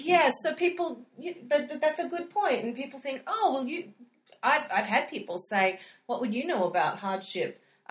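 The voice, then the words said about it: Australian accent. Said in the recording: “You've got this Australian accent, which is just so intriguing”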